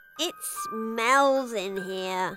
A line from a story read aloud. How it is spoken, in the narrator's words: Poppy moaned